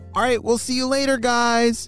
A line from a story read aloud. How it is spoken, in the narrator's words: shouted Momo